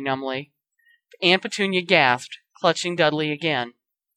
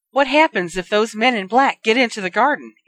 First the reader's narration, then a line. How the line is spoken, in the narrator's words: Aunt Petunia demanded, her voice shrill with fear